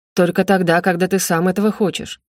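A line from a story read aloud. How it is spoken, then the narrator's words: Sharp. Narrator (Russian): резко произнес он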